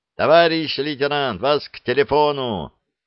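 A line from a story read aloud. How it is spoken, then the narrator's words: Shouting. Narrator (Russian): крикнул телефонист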